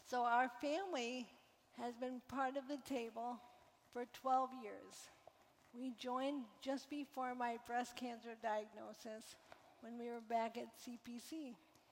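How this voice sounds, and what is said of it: Quieter, weakened voice. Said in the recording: “my voice is a little quieter than usual”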